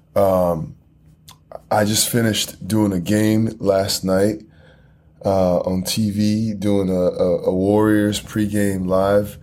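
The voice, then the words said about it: Hoarse, partly lost voice. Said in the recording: “my voice is a little, I feel like I lost my voice a little bit from yelling outside”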